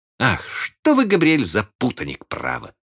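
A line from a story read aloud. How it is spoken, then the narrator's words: Laughing exclamation, aunt. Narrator (Russian): смеясь воскликнула тетушка Кэт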